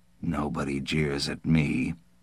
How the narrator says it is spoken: Nils said quietly

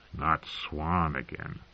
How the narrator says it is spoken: Tyrion muttered

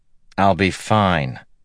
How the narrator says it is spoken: Matt said dryly

